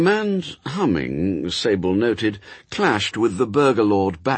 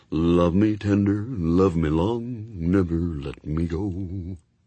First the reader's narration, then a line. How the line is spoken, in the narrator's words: singing quietly